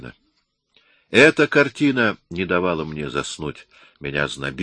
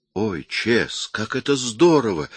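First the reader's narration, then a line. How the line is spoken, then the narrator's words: Exclamation. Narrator (Russian): воскликнула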